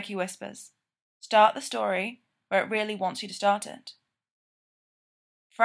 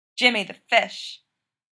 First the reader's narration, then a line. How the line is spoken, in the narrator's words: Mikey says in a thick Jersey Italian accent